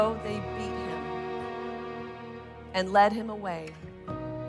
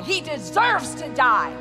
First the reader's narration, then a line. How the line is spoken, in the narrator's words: They cried out in reply